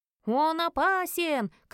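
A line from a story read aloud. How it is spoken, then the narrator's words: Crowd shouting. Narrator (Russian): кричали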